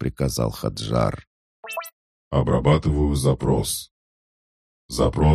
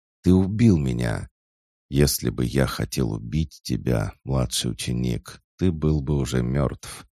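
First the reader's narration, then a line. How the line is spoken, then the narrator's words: Calm objection. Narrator (Russian): спокойно возразил Эрхард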